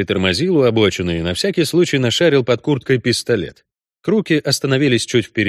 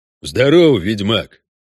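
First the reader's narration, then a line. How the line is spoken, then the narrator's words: Deep bass voice. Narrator (Russian): пробасил один из них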